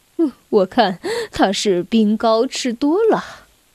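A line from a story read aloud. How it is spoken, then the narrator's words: Laughing. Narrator (Chinese): 爸爸笑着说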